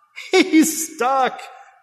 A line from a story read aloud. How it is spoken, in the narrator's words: Daddy yelled over the crowd, laughing